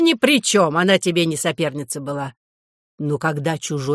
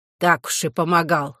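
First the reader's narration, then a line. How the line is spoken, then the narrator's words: Wry snort. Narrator (Russian): хмыкнула Кларина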